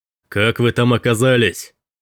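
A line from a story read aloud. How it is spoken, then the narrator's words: Deep male voice shouting. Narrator (Russian): прокричал мужчина с глубоким голосом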